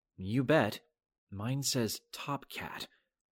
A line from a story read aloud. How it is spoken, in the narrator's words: I said gravely